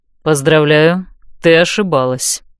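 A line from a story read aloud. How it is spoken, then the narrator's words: Cold pronouncement. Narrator (Russian): холодно изрек он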